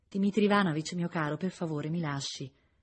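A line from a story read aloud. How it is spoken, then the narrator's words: Woman's plaintive voice. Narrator (Italian): diceva lei con voce lamentosa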